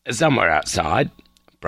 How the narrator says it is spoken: Brian said

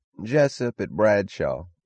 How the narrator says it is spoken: a drawling voice answered

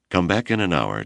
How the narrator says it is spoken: Char said

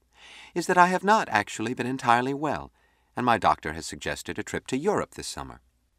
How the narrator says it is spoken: said smoothly

